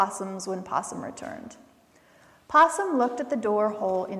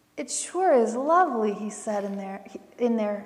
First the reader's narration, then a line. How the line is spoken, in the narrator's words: he said sadly